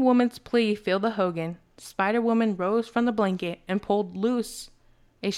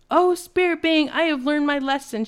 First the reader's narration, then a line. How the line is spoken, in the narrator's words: cried